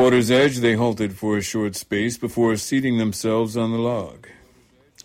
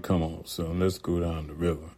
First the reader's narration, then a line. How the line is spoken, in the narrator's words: saying softly